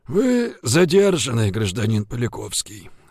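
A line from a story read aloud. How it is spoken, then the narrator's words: Creaky-voiced announcement. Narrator (Russian): скрипучим голосом объявил Жигулин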